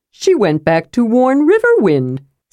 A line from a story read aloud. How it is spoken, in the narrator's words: said Tasselhoff cheerfully